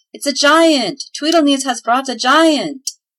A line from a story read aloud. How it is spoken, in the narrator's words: They shouted